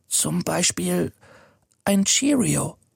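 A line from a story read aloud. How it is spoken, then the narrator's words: Whisper. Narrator (German): flüstert er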